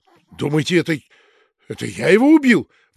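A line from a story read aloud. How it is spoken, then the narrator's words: Officer's exclamation. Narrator (Russian): воскликнул пристав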